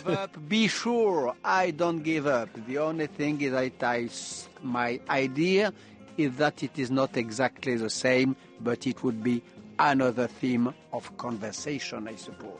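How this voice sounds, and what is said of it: Non-native accented English. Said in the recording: “Sorry for the English and the accent. ... wonderful to have the accent as well”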